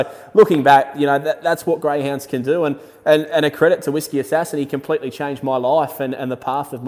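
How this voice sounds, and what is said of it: Usual voice. Nothing is said of it.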